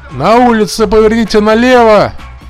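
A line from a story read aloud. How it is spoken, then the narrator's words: Shout. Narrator (Russian): крикнул Осклис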